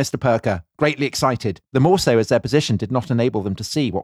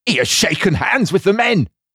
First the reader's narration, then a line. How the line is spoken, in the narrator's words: cried the little agent